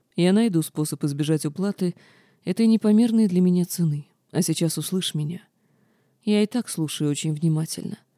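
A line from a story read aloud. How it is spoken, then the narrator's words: Calm, slightly sad, smiling. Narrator (Russian): Рейден улыбнулся, на этот раз с легкой грустью, и спокойно произнес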